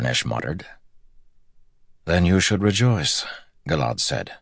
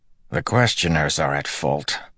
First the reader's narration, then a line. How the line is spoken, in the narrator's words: Harnish muttered